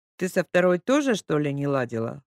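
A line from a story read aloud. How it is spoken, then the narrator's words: Laughing chuckle. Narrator (Russian): хохотнул Николай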